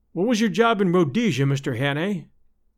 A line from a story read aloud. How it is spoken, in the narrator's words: he asked